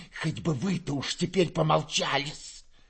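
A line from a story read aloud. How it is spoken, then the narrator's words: Spiteful hiss. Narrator (Russian): прошипела Перепелицына, злобно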